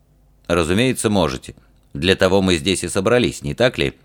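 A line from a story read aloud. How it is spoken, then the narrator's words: Calm, restrained anger. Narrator (Russian): Георг говорил спокойно и взвешенно, не давая свободы гневу, который, надо признать, распирал его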